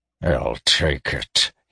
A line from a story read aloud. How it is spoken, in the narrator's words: he muttered bitterly